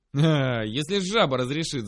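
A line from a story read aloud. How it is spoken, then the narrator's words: Guffawing. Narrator (Russian): захохотал он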